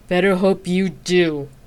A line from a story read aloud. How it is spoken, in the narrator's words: Xena growled back